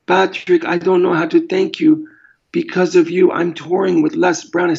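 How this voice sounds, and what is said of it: Put-on German accent. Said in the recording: “I think that was a German accent.”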